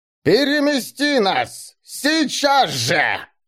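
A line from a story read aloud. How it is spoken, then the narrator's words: Shouting. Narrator (Russian): крикнула мертвая Шабелат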